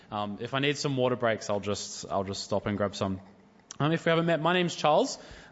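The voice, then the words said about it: Unwell, funny-sounding voice. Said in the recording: “I'm slightly under the weather, so my voice is going to sound funny throughout the night”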